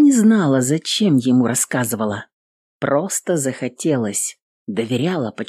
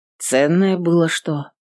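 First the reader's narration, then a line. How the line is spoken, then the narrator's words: Calm inquiry. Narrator (Russian): спокойно поинтересовался служитель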